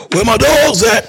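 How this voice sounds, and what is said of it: Raspy, throaty imitation of a rapper. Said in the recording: “That's such a good impression... He sounds like he hasn't, like he has stuck in his throat... Like, he needs to clear his throat.”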